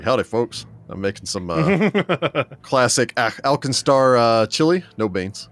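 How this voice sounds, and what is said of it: Fake-sounding southern accent. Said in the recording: “your southern accent sounds so fake”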